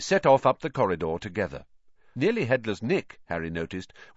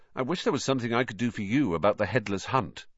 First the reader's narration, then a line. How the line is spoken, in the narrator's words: Harry said